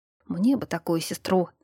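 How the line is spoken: Envious muttering. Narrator (Russian): завистливо пробурчал Дангат

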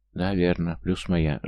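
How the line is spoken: Sighing. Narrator (Russian): Жанна вздохнула

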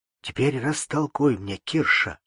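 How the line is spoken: Low voice. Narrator (Russian): сказал вполголоса Алексей

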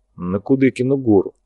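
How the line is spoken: Gruff mumble. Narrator (Russian): буркнул Ерофеев

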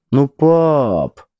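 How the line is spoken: Sleepy drawl. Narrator (Russian): сонно протянула, не открывая глаза

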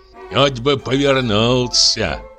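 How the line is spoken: Grumbling, servant. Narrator (Russian): ворчал слуга

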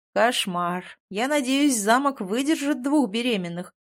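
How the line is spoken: Groaning. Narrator (Russian): простонал Тин

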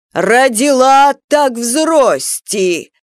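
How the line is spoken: Mother yelling. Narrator (Russian): Мама Шельму так выстигала, так орала

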